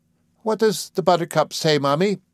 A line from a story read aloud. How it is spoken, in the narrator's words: he cried